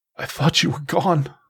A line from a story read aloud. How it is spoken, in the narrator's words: choked, barely able to speak